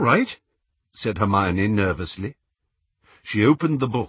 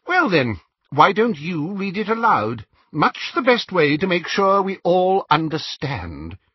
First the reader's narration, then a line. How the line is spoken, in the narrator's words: inquired Xenophilius sharply